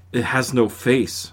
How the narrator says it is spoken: whispered Mike

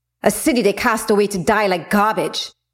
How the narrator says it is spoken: Zora spat

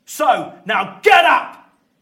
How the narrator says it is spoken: Walter is roaring down at him

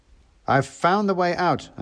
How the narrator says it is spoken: I shouted

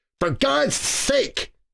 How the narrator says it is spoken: Cal snapped

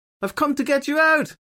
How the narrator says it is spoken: she shouted through the glass

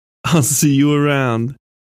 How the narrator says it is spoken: said, laughing

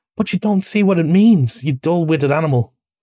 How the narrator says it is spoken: cried the rat impatiently

